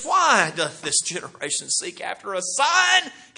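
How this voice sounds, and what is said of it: Deep frustrated sigh, then speaking. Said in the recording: “that deep sigh. It sounds like a sigh of frustration ... my impression of how he did this. He sighs deeply”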